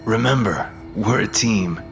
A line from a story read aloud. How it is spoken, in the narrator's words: told, choking back his tears